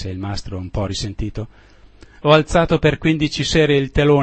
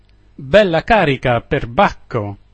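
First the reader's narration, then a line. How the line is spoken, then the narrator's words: Commander laughing heartily. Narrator (Italian): esclamò il comandante ridendo a crepapelle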